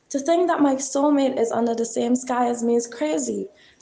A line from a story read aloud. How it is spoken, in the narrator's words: exclaimed Ivan and Teddy simultaneously